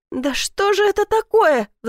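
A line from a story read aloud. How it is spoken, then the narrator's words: Pleading. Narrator (Russian): взмолилась Алена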